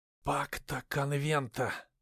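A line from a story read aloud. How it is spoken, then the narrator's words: Whispering boyar. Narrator (Russian): прошептал кто-то из бояр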